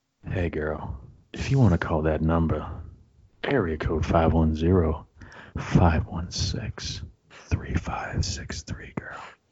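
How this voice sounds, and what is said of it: Put-on sexy, seductive voice. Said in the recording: “Should I read it in my sexy voice?”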